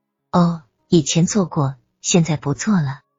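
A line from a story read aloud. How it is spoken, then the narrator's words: Flat, indifferent. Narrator (Chinese): 田元清淡淡的说道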